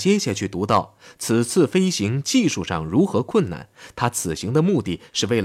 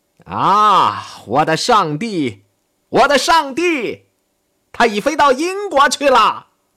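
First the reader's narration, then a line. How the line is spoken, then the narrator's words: Very loud shout. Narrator (Chinese): 喊了一声，声音之大，连楼下都能听见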